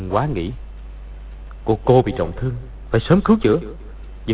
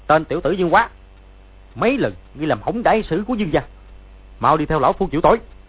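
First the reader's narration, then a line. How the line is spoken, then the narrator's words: Shout. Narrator (Vietnamese): quát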